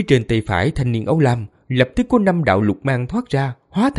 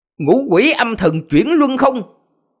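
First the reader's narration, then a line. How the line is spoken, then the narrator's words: Deep, dark shout. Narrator (Vietnamese): trong miệng âm trầm quát lên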